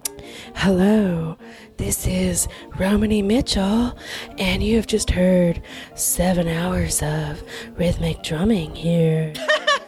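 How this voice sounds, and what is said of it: Public radio announcer voice. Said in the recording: “That's my NPR voice.”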